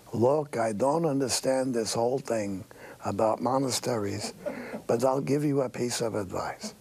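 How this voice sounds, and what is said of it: Old-fashioned Jewish accent. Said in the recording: “he said in the old-fashioned Jewish accent”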